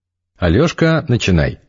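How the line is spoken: Cheerful. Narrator (Russian): весело сказал Игорь

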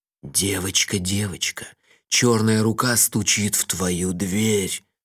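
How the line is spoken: Sinister whisper. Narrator (Russian): зловеще прошептал я

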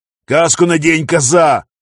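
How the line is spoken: Roaring. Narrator (Russian): взревел пограничник

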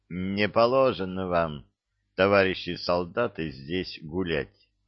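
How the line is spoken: Listless tone. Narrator (Russian): продолжал он вялым тоном

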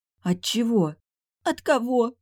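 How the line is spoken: Sobbing. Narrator (Russian): всхлипнула

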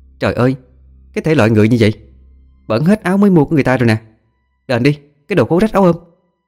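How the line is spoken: Shrill loud shriek. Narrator (Vietnamese): Ả ta hét toáng lên

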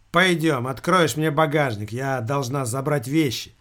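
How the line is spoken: Indifferent, young woman. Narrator (Russian): равнодушным тоном произнесла девушка

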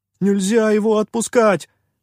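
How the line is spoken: Trembling shout. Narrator (Russian): дрожащим голосом выкрикнул попрыгун

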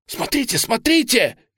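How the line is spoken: Shout. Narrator (Russian): крикнул Гиберн

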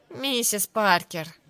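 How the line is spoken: Sighing. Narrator (Russian): вздохнула Сара

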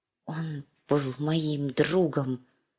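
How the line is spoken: Hushed secret whisper. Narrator (Russian): шептала Ария в тарелку, негромко, так, чтобы ее не услышали

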